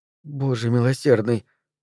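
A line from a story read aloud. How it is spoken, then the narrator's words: Mother muttering. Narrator (Russian): пробормотала мамаша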